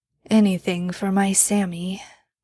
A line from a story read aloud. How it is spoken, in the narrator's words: Dean mumbled as he started to drift off to sleep